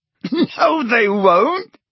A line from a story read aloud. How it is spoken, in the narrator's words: said Ron, who, like Harry, was laughing